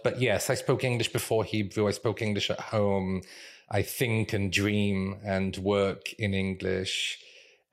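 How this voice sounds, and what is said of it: British accent, not Mancunian. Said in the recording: “sound even more British than my parents ever did... my accent is not Mancunian”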